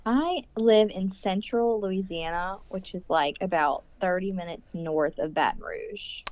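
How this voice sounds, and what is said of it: Light Southern Louisiana drawl. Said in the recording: “I love your accent. ... a little drawl.”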